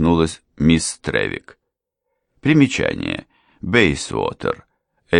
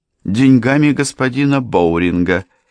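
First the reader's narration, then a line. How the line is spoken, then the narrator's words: Sharp reminder. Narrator (Russian): резко напомнила ему Деррика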